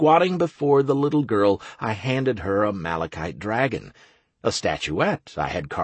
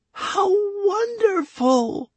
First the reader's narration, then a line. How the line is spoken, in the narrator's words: Lana squealed